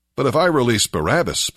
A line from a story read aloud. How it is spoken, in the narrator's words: Pilate asked them